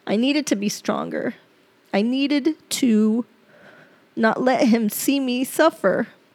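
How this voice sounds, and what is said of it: Choked-up, tearful voice. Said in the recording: “I get choked up. Right now, I'm a little choked up”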